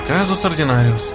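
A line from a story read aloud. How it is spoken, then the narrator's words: Calm remark. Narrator (Russian): спокойно прокомментировал Жарлин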